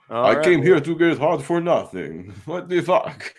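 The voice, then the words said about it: Bad put-on German accent. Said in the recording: “That was a terrible German accent”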